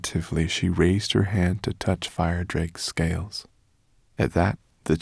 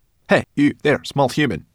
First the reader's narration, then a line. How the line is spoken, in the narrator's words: snapped